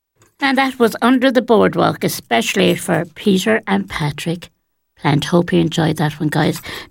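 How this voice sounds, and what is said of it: Posh-sounding radio voice. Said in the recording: “I sound very posh on the radio. That's just my radio voice”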